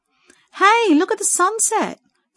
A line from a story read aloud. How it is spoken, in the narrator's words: Sadie called out